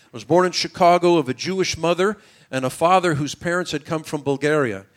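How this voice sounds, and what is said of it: American English accent. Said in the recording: “You can tell from my American accent and English, I wasn't born in Israel.”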